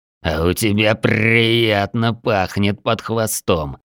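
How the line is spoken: Mocking growl. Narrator (Russian): с насмешкой прорычал Полос

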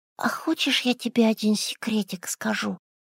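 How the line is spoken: Whisper in ear. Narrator (Russian): прошептал Тимоша ей на ухо

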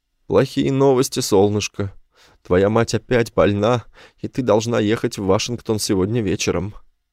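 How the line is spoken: Sad. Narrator (Russian): печально сказал

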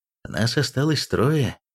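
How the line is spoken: Sigh. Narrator (Russian): вздохнул Эйлос

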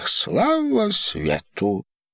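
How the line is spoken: Joyful. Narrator (Russian): произнесла храм, радостно

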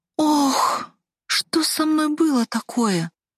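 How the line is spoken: Moaning. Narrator (Russian): Простонала я

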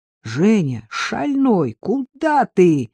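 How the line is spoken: Frantic scream. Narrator (Russian): закричала истошно Агнесса

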